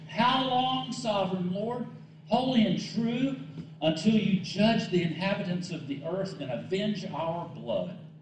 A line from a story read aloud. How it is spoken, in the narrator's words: They called out in a loud voice